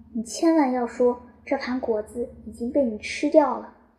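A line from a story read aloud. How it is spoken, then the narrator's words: Old man, soft voice. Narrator (Chinese): 独眼老人轻声说道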